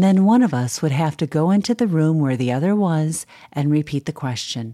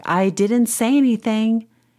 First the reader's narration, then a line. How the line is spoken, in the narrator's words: I'll shout back